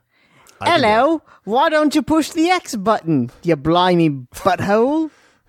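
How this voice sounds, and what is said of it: Put-on Cockney accent. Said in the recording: “a Cockney accent? ... Not as charming as that”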